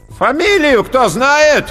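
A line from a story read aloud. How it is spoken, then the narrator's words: Loud, commanding, heavy man. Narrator (Russian): громко и властно выкликал толстяк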